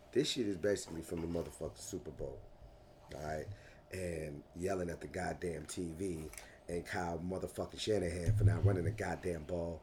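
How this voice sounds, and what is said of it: Hoarse, strained voice. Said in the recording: “I'm sounding a little hoarse right now ... I'm hoping that my fucking voice eventually comes back”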